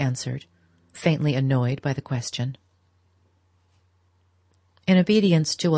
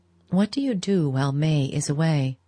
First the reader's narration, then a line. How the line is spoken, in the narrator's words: said, after a pause